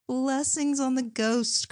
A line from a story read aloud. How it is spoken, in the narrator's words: cried Margaret gaily, as merry as a child